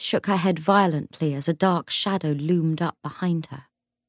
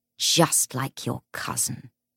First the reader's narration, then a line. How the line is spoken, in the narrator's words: sneered